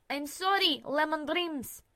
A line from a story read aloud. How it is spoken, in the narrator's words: he called out